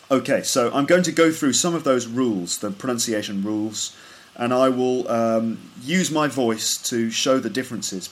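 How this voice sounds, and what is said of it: Standard Southern English BBC accent. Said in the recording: “standard Southern English pronunciation here, which is a kind of BBC English. Now, that's the kind of English accent that I have. I'm from the south of England. ... I don't have a particularly strong regional accent. I have probably like BBC English, like a standard kind of English.”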